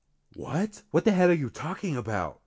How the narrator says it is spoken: she asked

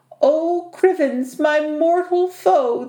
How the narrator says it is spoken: the Ettin moaned to himself as he slumped to the floor, fast asleep

